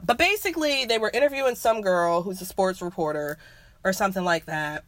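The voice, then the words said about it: Hoarse voice from a cold. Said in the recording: “I'm losing my voice. ... I am getting over a cold. So, excuse the coughs.”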